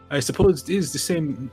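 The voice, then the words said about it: Put-on Scottish accent. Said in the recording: “that's the same fucking accent... Oh, Scottish accent.”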